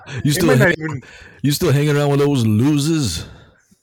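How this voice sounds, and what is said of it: Imitates another person's voice. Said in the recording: “But you can do Billy D. Williams... I don't even know if it's a good impression, but to me, it sounds just like him.”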